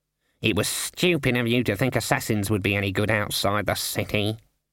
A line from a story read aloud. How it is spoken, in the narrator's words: muttered Cleet